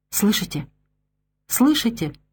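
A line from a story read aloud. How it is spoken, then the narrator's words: Child whispering. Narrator (Russian): шептал маленький партизан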